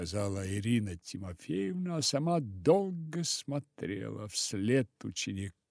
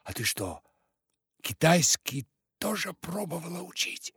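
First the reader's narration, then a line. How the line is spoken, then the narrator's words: Quiet question. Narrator (Russian): Рая тихо спросила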